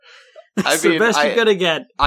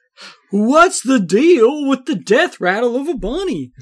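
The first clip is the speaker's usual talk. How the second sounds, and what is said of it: Jerry Seinfeld impression sounding like Goofy. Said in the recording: “Seinfeld impression ... that's just Goofy. ... That's some combination of Jerry Seinfeld and Goofy”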